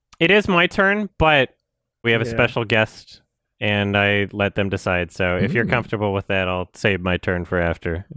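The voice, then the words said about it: Strained, worn-out voice. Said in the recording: “My voice is dying.”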